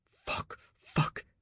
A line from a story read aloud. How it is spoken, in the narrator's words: she whispered, her shoulder on fire